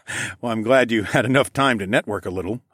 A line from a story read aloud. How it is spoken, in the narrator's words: I chuckled